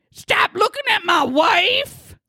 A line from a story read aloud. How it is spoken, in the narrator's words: he starts screaming at a gentleman across the bar